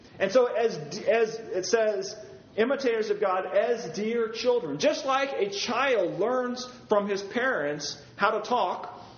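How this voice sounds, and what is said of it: Slight Virginia Southern accent. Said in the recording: “I've got a little bit of an accent now ... I don't have the Western accent anymore. I've got kind of a Virginia accent”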